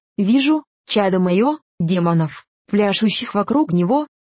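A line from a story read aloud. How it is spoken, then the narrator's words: Plain, old man. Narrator (Russian): сказал старец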